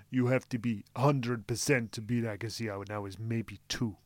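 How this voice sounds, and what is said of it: Impression of Goran Ivanisevic. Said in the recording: “do your Goran impression”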